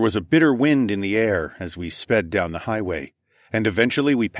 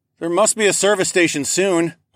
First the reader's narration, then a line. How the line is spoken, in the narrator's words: I hollered back